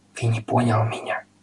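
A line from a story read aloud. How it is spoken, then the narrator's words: Whispering. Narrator (Russian): снова зашептал господин Пепперминт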